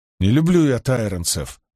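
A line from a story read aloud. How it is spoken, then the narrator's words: Grumbled. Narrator (Russian): пробурчал Олвер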